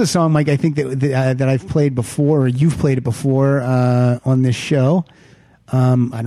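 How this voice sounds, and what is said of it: Usual voice. Nothing is said of it.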